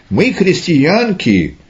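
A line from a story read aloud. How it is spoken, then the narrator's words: Two women exclaiming. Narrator (Russian): Марфа вместе с сестрой своей, воскликнула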